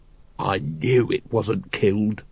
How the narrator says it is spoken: growled Vimes

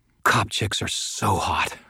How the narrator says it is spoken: mumbled

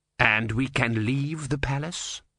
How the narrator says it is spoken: said Vorbis coldly

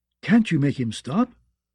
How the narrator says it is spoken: she begged

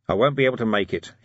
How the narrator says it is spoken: he mumbled

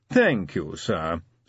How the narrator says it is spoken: said Willikins smoothly

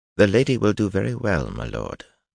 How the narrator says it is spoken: Bulwer said softly

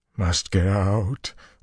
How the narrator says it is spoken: Lutheran moaned

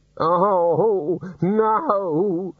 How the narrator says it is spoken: the senior wrangler moaned

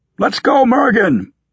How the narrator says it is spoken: Bucket yelled

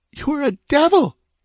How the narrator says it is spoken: sobbed

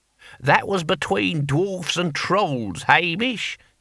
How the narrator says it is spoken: he said

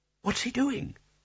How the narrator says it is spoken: Spelter whispered

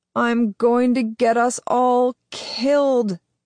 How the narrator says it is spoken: Sam groans

